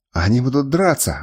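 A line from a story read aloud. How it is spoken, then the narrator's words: Exclaiming. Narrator (Russian): воскликнул адмирал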